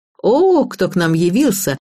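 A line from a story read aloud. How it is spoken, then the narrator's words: Triumphant female exclamation. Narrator (Russian): воскликнула Родионова, которая определенно чувствовала себя королевой бала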